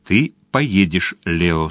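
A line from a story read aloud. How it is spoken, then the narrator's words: Plain. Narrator (Russian): сказал он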